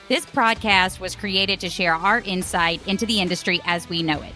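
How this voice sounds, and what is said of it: Alabama Southern US accent. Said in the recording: “headquartered out of Birmingham, Alabama, if you couldn't tell from my accent”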